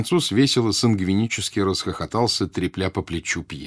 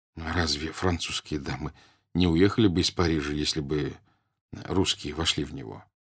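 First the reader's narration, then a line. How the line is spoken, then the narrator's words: Plain. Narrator (Russian): сказал Пьер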